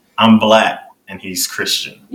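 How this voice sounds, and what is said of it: Sad-sounding delivery. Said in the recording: “You sound sad”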